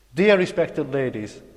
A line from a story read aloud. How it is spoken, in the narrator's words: continued excitedly